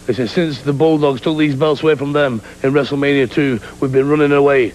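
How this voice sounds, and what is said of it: British accent. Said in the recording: “I'm a fan of the British accent.”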